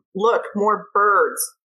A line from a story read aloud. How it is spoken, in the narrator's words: yell at him